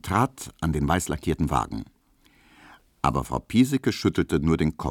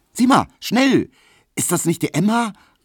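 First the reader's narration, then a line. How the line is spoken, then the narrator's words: Calling out. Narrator (German): rief die rotblonde Pauline Emil Kubinke zu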